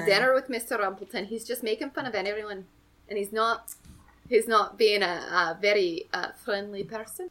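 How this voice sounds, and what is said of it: Put-on Glasgow Scottish accent. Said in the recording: “where is that accent from? ... That's Glasgow. ... Glasgow, famously Scotland.”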